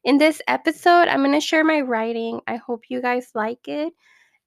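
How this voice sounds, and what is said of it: Rusty, slightly hoarse voice. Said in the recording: “my voice sounds a little rusty. I have a cold”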